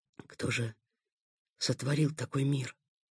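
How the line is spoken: Whisper. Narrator (Russian): прошептал Сухов

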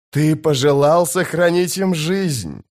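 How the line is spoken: Gleeful hiss. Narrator (Russian): с ликованием прошипел престол тени

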